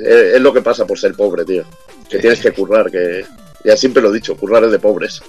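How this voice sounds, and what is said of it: Slightly hoarse, deeper voice. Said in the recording (Spanish): “un poquito ronco, estoy un poco hecho polvo... sacando la voz de hombre ya”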